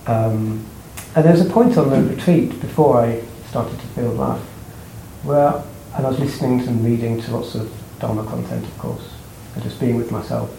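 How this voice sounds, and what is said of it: Weak, unwell-sounding voice. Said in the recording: “I don't feel very well ... my voice is not very strong”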